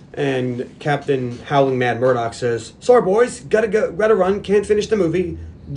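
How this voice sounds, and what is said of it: Usual voice. Nothing is said of it.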